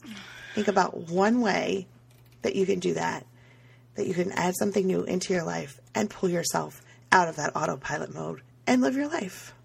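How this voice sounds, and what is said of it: Raspy, hoarse voice. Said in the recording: “my voice is not back to normal yet... I literally had no voice. And then I started to sound a whole lot like DMX... I'm still not 100%”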